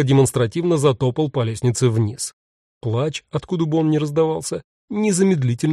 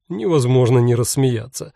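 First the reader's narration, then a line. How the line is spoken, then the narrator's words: Asked through laughter. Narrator (Russian): спросил сквозь смех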